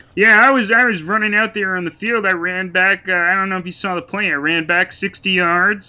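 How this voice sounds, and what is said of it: Kermit the Frog-like imitation voice. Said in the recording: “your Mahomes impression is just Kermit the Frog”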